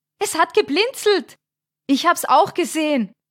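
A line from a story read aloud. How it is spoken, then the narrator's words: Called out. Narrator (German): rief Thomas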